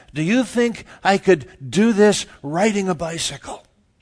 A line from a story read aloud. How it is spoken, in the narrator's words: he has a PA system, and he says